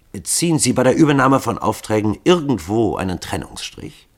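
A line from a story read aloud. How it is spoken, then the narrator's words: Plain question. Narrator (German): fragte Winterhall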